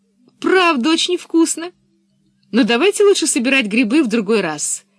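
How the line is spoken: Cheerful. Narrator (Russian): сказала она весело

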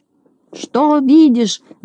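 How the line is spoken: Impatient shout. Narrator (Russian): закричал, сгорая от нетерпения, Знайка

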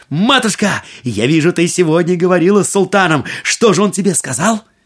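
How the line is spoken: Exclaiming. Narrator (Russian): Аладдин воскликнул

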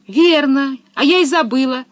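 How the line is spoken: Exclaiming. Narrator (Russian): воскликнула Пеппи

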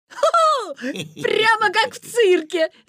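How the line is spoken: Laughing. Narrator (Russian): засмеялся Витя

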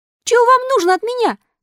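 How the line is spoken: Frightened shout. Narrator (Russian): закричал Пиноккио, в испуге

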